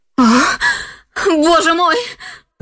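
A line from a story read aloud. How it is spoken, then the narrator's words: Screaming. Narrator (Russian): закричала она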